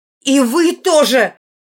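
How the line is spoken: Shouted out. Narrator (Russian): выкрикнула

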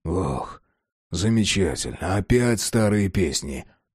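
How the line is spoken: Weary sigh. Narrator (Russian): Вздохнув, сообщил Джек

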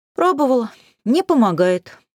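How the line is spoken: Sighing. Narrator (Russian): вздохнула я

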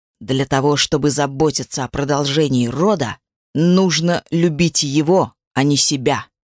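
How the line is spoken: Hissing in someone's face. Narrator (Russian): Прошипел он ей в лицо

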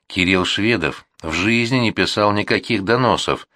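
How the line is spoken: Calm objection. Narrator (Russian): спокойно возразил ее собеседник

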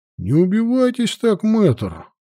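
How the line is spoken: Snorting. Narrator (Russian): хмыкнул Вальтер

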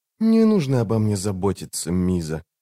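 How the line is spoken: Quiet. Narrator (Russian): негромко сказала она

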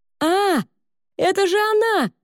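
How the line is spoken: Excited shout of recognition. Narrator (Russian): закричал Мата, узнав мелодию

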